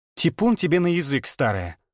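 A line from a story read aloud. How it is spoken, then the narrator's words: Angry reply, mother. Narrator (Russian): Зло ответила мать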